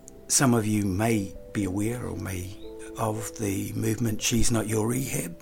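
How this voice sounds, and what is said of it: Croaky voice. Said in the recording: “Excuse my voice, I'm a little bit croaky.”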